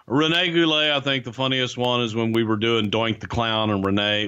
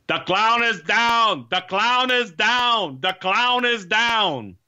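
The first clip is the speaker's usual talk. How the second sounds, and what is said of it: Put-on French accent, shouting. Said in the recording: “all we heard in his French accent”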